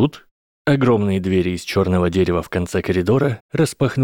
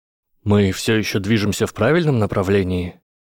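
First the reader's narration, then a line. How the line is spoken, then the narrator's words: Plain question. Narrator (Russian): спросил Энтони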